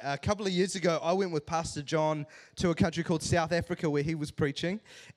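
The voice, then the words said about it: New Zealand accent. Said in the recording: “I talk like a Kiwi,”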